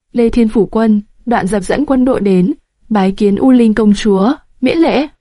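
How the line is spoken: Firm, heavy voice. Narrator (Vietnamese): Đoạn Dập kiên định nói với giọng nặng trĩu

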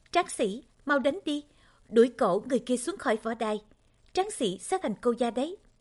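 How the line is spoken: Crowd cheering shouts. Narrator (Vietnamese): tiếng hò hét rộ lên

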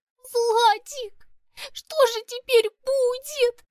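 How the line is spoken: Sobbing. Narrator (Russian): всхлипывала она

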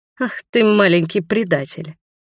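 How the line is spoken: Surprised snort. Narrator (Russian): Роберт удивленно хмыкнул

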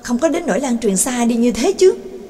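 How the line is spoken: Exclaimed. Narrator (Vietnamese): Đường Mẫn thốt lên

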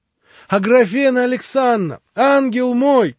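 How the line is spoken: Sudden shout. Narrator (Russian): крикнула она вдруг

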